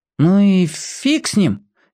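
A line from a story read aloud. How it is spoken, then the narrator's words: Uncertain reply. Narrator (Russian): неуверенно откликнулся Пека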